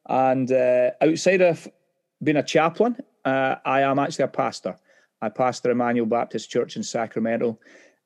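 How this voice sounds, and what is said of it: Scottish accent. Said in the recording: “As you can tell by my accent, I'm a Scotsman”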